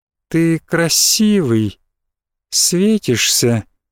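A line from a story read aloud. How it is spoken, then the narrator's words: Slow entranced speech. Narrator (Russian): медленно сказала девушка, завороженно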